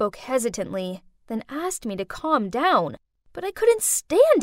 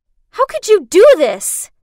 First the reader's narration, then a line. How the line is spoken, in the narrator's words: I screamed